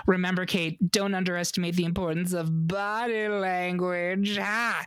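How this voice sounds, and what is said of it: Poor impression of Ursula. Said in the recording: “terrible Ursula impression,”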